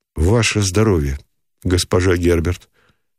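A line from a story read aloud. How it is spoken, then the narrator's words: Plain. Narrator (Russian): сказал Никитин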